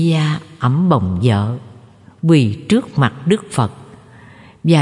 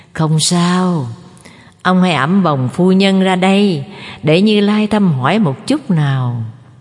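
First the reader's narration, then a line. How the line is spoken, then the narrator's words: Smiling. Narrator (Vietnamese): Đức Phật mỉm cười nói với gia chủ Subhiya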